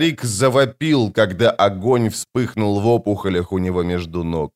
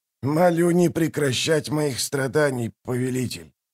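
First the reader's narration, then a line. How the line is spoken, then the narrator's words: Mumble. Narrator (Russian): промямлил Мунук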